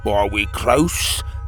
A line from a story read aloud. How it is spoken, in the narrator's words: he croaked